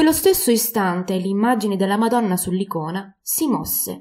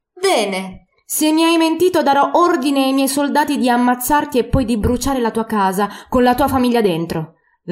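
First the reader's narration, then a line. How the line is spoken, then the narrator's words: Shouted. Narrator (Italian): gridò Vlasov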